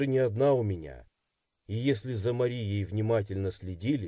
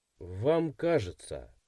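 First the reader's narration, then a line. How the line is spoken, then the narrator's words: Skeptical snort. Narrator (Russian): хмыкнул я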